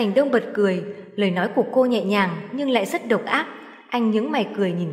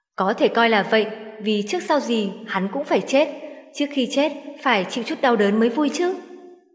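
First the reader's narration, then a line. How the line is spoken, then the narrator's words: Smiling. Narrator (Vietnamese): mỉm cười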